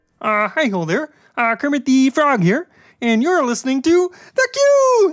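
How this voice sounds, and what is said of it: Kermit the Frog voice impression. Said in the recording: “That was amazing ... Listener Voice Impersonation ... incredible ... that was awesome”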